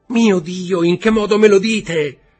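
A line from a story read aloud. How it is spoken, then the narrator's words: Offended shout. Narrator (Italian): gridò Valentino offesa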